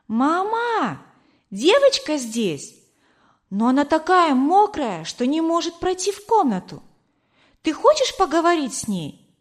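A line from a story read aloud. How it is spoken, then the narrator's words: Child shouting. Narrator (Russian): девочка крикнула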